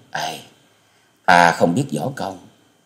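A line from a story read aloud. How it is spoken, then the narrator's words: Sighing. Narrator (Vietnamese): Tư Đồ Hồng thở dài nói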